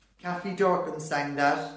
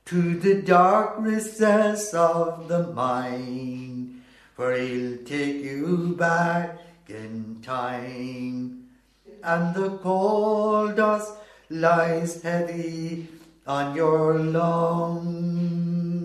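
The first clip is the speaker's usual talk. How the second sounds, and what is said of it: Sings imitating another person's voice. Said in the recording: “So you're doing an imitation of him? ... Doing an imitation of her is right.”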